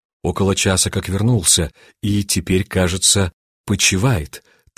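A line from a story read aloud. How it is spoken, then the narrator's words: Quiet answer. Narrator (Russian): так же тихо ответил офицер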